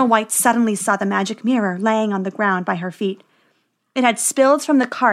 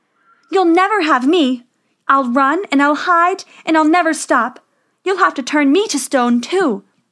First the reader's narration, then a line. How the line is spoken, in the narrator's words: Snow White cried